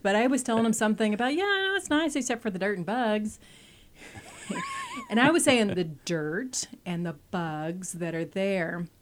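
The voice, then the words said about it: Thick regional American accent. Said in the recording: “I probably still have a pretty thick accent, more than I like to admit.”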